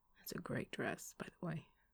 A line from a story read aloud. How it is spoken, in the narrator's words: he murmured, a playfully lascivious note to his voice